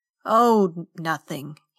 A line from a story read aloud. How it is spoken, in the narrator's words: said, and chuckled again